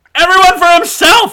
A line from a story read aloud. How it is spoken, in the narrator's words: I yelled